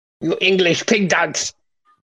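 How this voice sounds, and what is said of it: Mock French accent, Monty Python. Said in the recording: “in a French accent ... Like Monty Python and the Holy Grail.”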